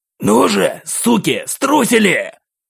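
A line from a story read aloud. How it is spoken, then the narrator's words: Killer's snarl. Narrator (Russian): зарычал убийца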